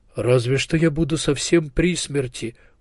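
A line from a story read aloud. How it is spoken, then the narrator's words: Martyred sigh. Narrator (Russian): мученически вздохнул Мартин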